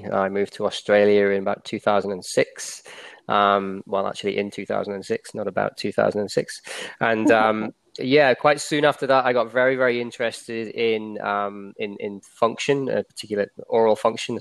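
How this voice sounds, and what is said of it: English accent. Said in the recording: “As you can probably tell from my accent, I'm from England originally.”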